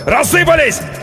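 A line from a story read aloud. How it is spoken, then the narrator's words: Yelled. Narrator (Russian): Андрей заорал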